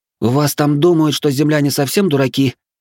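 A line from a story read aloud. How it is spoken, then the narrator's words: Hoarse rasp. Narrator (Russian): прохрипела она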